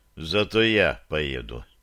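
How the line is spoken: Quiet statement. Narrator (Russian): тихо заявил Самсон

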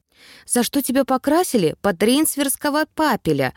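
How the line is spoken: Sighing. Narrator (Russian): вздохнула я

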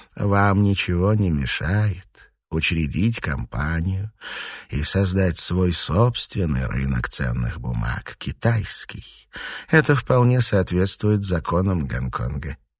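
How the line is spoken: Quiet. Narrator (Russian): тихо произнес

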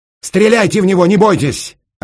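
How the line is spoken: Desperate shout. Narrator (Russian): отчаянно крикнул Раст Петрович

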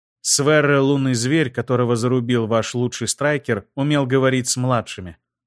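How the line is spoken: Plain. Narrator (Russian): ответила Айлира

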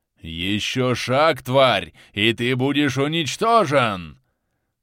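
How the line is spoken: Roaring threat. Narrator (Russian): взревел Акваризамакс

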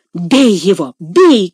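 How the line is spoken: Shout. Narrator (Russian): крикнул Легри

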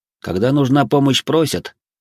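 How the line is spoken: Grumbling. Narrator (Russian): проворчал я

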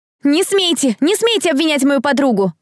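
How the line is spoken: Shouting. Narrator (Russian): кричала Дэрил

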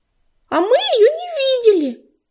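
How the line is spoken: Squeaky high voice. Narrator (Russian): пропищала белолапка

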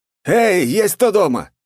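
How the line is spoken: Shouting. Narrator (Russian): крикнул я

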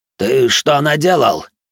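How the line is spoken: Loud, slightly hysterical. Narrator (Russian): Громко и немного истерично начал старейшина

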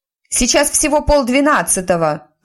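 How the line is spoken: Shouted reply. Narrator (Russian): крикнула в ответ Тиффани

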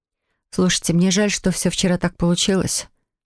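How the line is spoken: Mumbled. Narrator (Russian): пробормотала я

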